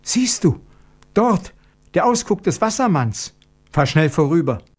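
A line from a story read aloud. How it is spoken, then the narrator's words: Sudden frightened cry. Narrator (German): rief sie in plötzlichem Schrecken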